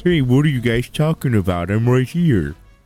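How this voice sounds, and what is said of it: Impression of an absent friend. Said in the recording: “do a little Triv impression? ... It was my little Triv”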